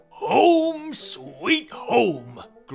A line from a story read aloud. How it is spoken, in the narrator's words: growled the Papa Bear